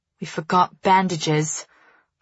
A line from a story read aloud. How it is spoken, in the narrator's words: Farley mutters